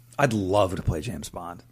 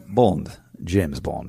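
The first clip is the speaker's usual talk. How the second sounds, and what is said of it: Posh British accent as James Bond. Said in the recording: “British accent? ... a rudimentary posh English”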